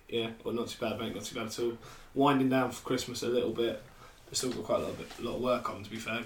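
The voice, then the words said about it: Hoarse voice from sore throat. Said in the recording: “I've got a bit of a sore throat ... my voice went, shall I say, on Sunday, and it's still not back”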